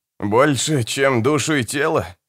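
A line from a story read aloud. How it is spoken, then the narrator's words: Snorted. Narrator (Russian): фыркнул Генрих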